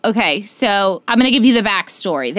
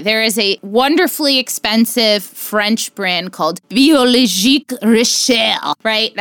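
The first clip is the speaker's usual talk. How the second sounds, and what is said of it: Put-on French accent. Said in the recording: “That's my French accent, so shove it.”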